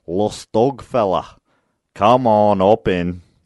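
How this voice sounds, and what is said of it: Put-on Scottish accent, understated. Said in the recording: “a Scottish guy ... he says it with more of a Scottish accent than that”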